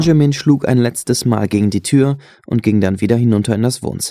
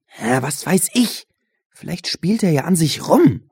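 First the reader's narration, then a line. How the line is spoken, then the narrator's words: Hissing. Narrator (German): zischte Benjamin Josh an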